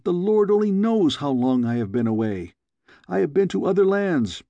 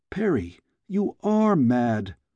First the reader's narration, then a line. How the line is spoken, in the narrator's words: exclaimed